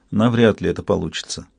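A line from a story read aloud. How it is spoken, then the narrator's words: Quiet reply. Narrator (Russian): Уинтроу тихо ответил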